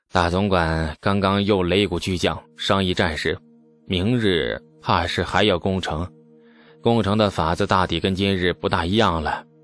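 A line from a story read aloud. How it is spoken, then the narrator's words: Leisurely sigh. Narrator (Chinese): 李素悠然叹息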